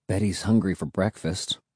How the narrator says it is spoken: muttered

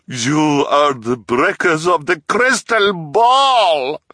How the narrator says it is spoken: she bellowed

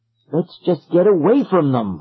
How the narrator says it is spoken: I cried

